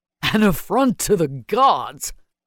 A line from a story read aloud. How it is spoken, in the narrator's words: Maddox's harsh laugh echoed through the chamber